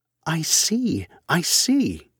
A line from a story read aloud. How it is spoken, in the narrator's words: she exclaimed, after a little pause